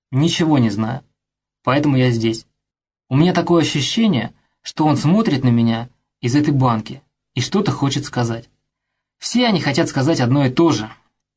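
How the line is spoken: Flat, almost dreary matter-of-fact. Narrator (Russian): проговорил Пафнутьев будничным, чуть ли не унылым голосом, словно речь шла об очевидном

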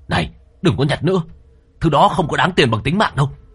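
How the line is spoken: Loud shout. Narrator (Vietnamese): Anh gầy lớn tiếng

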